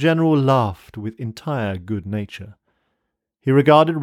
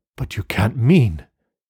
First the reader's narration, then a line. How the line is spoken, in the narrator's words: gasped Rainsford